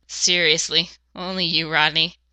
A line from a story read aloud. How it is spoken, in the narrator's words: he chuckled